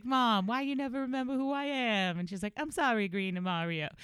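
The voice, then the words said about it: Deliberately bad put-on accent. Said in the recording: “I'm about to do a horrible accent ... like the A's are in there. That's why I'm reading it like that or saying it like that.”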